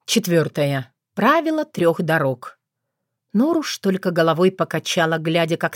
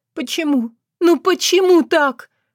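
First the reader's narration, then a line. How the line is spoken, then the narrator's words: Almost silent whimper. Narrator (Russian): практически беззвучно проскулила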